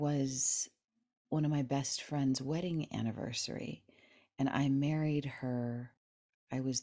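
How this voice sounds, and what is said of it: Usual voice. Nothing is said of it.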